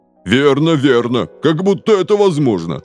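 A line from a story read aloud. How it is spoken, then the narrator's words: Chorus laughing hysterically. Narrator (Russian): хором повторили полицейские, рыдая от хохота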